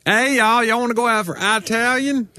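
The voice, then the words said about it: Exaggerated thick Southern Tennessee accent. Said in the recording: “they expected my accent to be a lot thicker when they heard that I was from Tennessee ... I probably vary the intensity of my accent ... I have a southern accent ... people are disappointed that I'm not just like”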